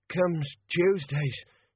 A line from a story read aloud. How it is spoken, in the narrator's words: he panted